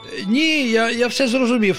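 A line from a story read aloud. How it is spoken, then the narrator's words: Joyful exclamation. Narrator (Ukrainian): радісно вигукнув пустомелик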